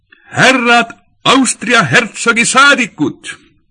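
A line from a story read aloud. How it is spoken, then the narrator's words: Bright clear shout. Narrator (Estonian): uksehoidja heleda häälega hüüdis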